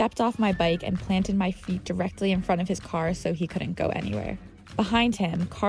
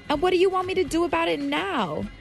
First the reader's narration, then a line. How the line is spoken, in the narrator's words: he finally yelled back